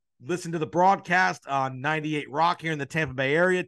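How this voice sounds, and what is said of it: Strained, fading voice. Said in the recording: “losing my voice”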